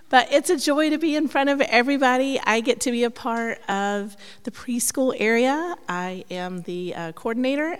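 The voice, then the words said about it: Hoarse, breaking voice. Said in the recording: “I am getting over laryngitis, so my voice is breaking”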